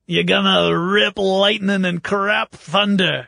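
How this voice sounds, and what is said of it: Imitates another person's voice. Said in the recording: “you guys should be thankful I did Burgess Meredith”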